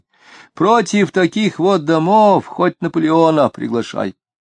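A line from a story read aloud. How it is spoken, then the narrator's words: Sighing. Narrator (Russian): И снова вздохнул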